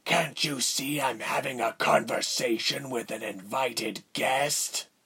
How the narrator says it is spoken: a raspy voice returned

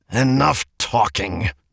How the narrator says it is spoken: the man snapped

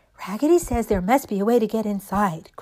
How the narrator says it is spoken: cried all the dolls

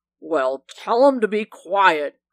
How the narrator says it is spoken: growled the leopard

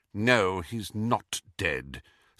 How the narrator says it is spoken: said McGonagall bitterly

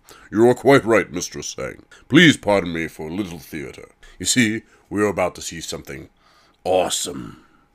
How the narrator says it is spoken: Horus barked a good-humored laugh, saying

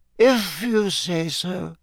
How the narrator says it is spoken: she muttered sleepily

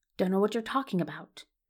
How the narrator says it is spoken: he whispers back

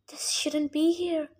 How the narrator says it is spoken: Annabeth whispered

